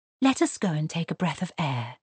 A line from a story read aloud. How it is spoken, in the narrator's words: she said softly